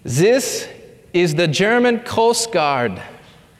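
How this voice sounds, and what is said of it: Thick put-on German accent. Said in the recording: “says the German recruit in his thick German accent”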